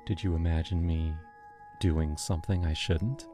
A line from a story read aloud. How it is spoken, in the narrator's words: She whispered